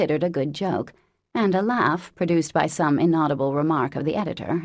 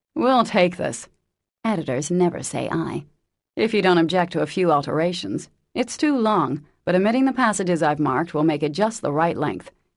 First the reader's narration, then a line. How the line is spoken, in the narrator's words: he said in a businesslike tone